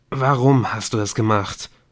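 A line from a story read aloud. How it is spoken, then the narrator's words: Hoarse question. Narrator (German): fragte Nick heiser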